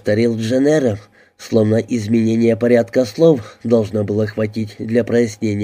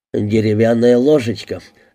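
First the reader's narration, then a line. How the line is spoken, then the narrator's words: Sighing answer. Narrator (Russian): ответил Дэвис и вздохнул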